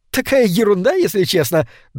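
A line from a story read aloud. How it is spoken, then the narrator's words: Embarrassed giggle. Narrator (Russian): добавила она, смущенно хихикнув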